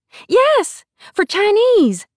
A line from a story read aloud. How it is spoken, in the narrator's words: she exclaimed